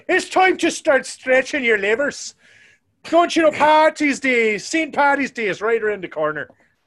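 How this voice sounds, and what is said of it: Caricatured put-on Irish accent. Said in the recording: “how terrible my Irish accent is ... your Irish accent really wasn't that bad. It was a little bit of a caricature, but it was definitely not bad.”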